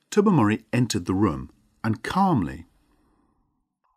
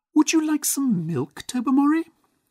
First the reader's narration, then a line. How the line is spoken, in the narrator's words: she asked in a high, unnatural voice